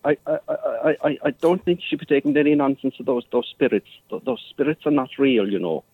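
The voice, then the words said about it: Fake Irish accent. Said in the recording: “Neither is your Irish accent”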